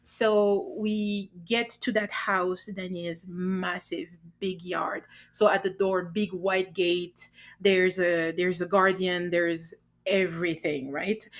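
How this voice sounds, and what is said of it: French accent. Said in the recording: “your accent ... I'm trying to control it not to be too French”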